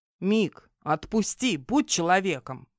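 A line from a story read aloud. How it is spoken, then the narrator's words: Unexpectedly sober plea. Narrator (Russian): Неожиданно трезвым голосом попросил Фихас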